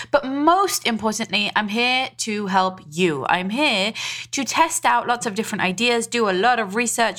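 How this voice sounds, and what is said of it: Mixed British and Israeli accent. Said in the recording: “I am British, Israeli, and now living in the USA on the East Coast. So if you are confused about my accent”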